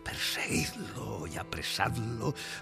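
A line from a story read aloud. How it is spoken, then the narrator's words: Dreamy whisper becoming clamor. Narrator (Spanish): susurrado en su sueño o en su desmayo, se convirtió en una voz que clamaba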